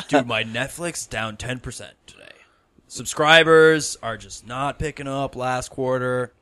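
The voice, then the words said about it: American bro stock trader voice. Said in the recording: “in an American accent ... That's almost like a bro stock trader.”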